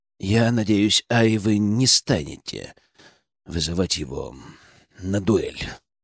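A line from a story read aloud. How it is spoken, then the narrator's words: Quiet. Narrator (Russian): тихо сказал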